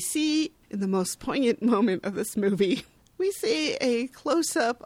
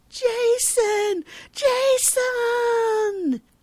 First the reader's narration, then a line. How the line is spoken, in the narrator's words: Carlo runs towards the flattened car, yelling